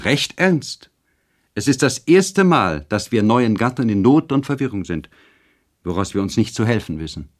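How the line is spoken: Called out. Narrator (German): rief Charlotte

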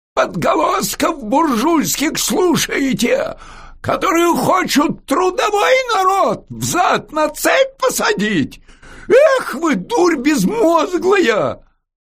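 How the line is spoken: Shouted. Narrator (Russian): Ему крикнули

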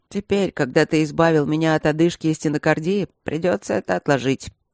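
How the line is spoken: Gloomy reply. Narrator (Russian): мрачно ответил Макс

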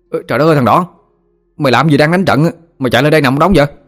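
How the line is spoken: Running shout. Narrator (Vietnamese): Thằng Tèo chạy lại la lên

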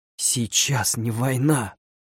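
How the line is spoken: Hoarse objection. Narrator (Russian): хрипло возразил я

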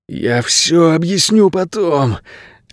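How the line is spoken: Pleading. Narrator (Russian): взмолился Найрат

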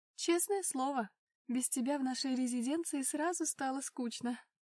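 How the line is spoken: Chuckling. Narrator (Russian): хохотнула Илона

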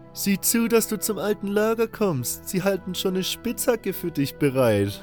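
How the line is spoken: Guard calling out laughing. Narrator (German): einer der Wachen rief mir lachend zu

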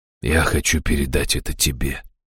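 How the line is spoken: Gentle. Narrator (Russian): мягко проговорил старший Рэмэй

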